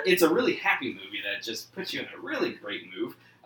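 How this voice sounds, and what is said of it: Sarcastic tone. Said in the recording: “Are you being sarcastic? ... Yeah.”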